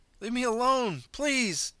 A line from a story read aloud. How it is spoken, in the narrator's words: begged